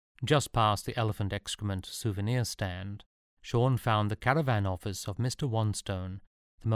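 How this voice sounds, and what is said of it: Usual voice. Nothing is said of it.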